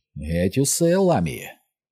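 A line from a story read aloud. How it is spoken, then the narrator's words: Very irritated hiss. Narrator (Ukrainian): знову дуже роздратовано зашипіла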